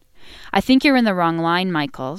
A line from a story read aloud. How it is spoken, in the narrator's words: said firmly